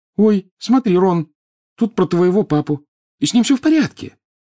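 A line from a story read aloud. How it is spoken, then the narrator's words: Hurried addition. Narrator (Russian): торопливо прибавила она, поскольку Рон в страхе оглянулся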